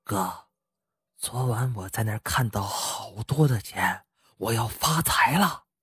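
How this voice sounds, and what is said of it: Smug whisper. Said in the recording (Chinese): “伏在他耳边，得意洋洋的小声说”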